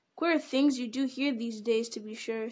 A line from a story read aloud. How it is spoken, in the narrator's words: said Sam